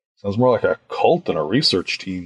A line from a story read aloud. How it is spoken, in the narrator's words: I muttered